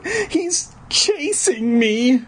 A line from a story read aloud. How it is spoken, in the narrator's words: I cried